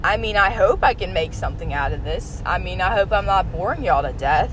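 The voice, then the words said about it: Southern US accent, Texas-like. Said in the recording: “my horrible southern accent, which apparently I have ... other people say that I sound like I'm from Texas”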